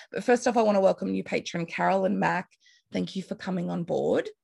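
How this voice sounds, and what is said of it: Hoarse, strained voice from illness. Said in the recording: “I'm losing my voice, as you can tell, coming down with something”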